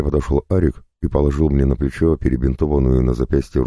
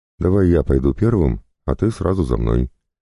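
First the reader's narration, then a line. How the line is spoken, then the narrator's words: Calm suggestion. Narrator (Russian): спокойно предложил он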